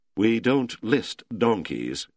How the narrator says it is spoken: Cuevas said haughtily

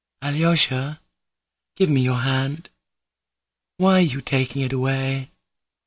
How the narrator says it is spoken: murmured Lisa in a failing voice, weak with happiness

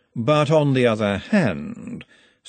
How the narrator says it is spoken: said Vetinari, his voice all smoothness

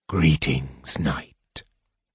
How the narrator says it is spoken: whispered Raistlin from the corner

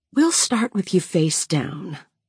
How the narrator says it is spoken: she says in a gentle, soothing voice

